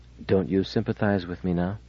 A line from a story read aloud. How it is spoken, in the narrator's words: She said in a low voice